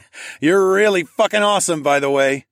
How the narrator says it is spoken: I chuckled in awe

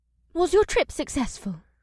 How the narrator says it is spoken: Ibsith asked brightly

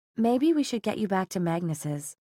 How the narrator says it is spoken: she said as gently as she could

